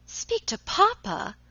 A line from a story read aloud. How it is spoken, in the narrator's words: exclaimed Alicia